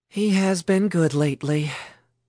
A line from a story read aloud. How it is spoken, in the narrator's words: Mary said with a sigh